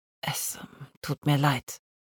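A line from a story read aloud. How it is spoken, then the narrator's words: Doctor speaking softly. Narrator (German): sagte der Arzt und sprach leise weiter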